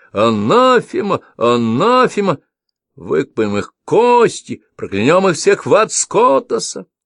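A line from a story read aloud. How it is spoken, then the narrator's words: Joyful crowd shouting. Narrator (Russian): Люди радостно кричали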